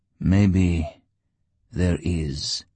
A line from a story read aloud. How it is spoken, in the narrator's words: Artyom replied slowly